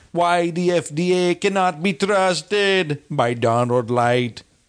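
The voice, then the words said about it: Attempted Jamaican accent, sounding Indian. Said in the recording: “do it like a Jamaican ... You like went Indian or Pakistani or something. I'm not sure. Jamaican I mean”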